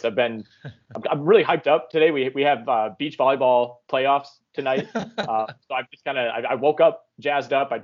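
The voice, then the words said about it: Voice giving out, hoarse. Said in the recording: “lose my voice”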